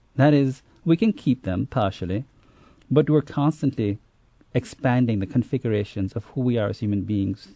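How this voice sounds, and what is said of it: Immigrant's foreign accent. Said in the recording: “clearly I still have my accent after being here for 29 years. I probably will never lose it.”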